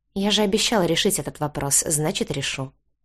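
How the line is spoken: Calm. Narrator (Russian): спокойно проговорил Крис

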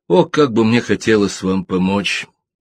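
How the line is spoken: Muttered. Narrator (Russian): пробормотал Ребус

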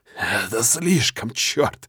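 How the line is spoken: Hoarse growl. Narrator (Russian): Хрипло рычу я

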